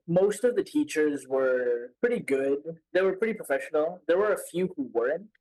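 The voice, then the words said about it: Mixed Indian and American accent. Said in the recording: “it's a mix, right? It's a mix of Indian and American.”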